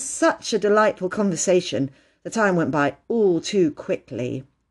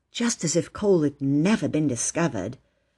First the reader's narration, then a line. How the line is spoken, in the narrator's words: Phyllis whispered to her sister